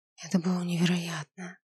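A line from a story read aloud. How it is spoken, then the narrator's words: Breathless exhale. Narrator (Russian): выдохнула я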